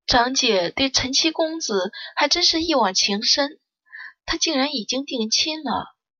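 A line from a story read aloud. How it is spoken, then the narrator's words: Sighing. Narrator (Chinese): 顾兰也叹了口气道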